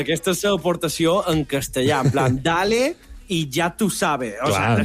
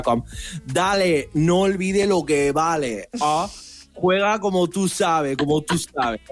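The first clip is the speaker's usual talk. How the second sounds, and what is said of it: Stereotypical Latin American Spanish accent. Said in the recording (Catalan): “Te queda molt bé aquest accent ... estereotip latino”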